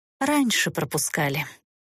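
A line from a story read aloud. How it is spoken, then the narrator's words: Quiet sigh. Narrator (Russian): тихо вздохнула монашка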